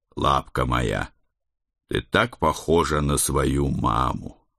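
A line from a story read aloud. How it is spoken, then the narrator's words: Tender, horrified whisper. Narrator (Russian): С нежностью и ужасом прошептал я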